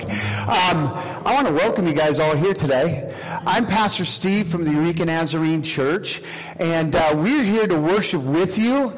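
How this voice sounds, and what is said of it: Loud, yelling preacher delivery. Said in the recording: “am I too loud? I'm yelling like I normally do”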